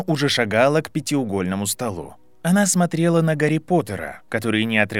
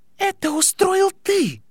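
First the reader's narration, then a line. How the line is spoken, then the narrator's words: Exclamation. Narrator (Russian): воскликнула Падма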